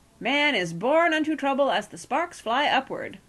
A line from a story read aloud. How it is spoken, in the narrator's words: Bagthorpe was cheerfully telling Aunt Penelope